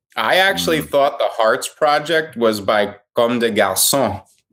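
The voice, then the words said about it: French accent. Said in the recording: “You have a nice accent, my friend. ... je suis français, hein?”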